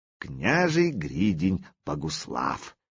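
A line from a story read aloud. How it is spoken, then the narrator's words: Slow, savoring. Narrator (Russian): медленно смакуя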